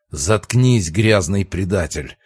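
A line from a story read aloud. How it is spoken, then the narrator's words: Growl. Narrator (Russian): рыкнул пожиратель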